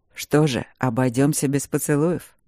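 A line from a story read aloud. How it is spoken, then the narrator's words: Tender growling voice. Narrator (Russian): сказал он ласково и рычаще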